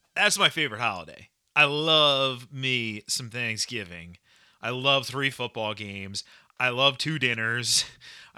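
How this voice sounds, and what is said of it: Excited, upbeat delivery. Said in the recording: “I sound so excited”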